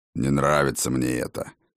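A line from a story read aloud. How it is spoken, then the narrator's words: Grumbling. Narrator (Russian): проворчал Фроди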